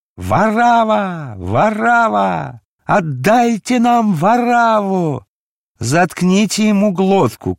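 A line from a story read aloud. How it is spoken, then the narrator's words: Shouting. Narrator (Russian): кричал Анна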